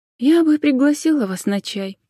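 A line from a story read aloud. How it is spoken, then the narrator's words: Sighing. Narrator (Russian): вздохнула Джен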